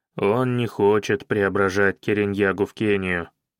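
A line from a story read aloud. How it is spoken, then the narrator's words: Gloomy reply. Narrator (Russian): мрачно отозвался Каинаги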